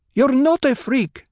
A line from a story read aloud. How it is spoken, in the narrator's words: Hera snapped